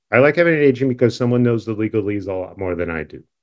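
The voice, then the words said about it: New York accent. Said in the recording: “this particular New York accent”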